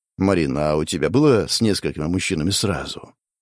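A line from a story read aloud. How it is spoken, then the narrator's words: Quiet question. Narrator (Russian): тихо спросил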